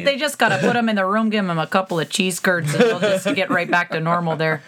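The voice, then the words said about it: Put-on Wisconsin accent. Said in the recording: “That was my Wisconsin accent”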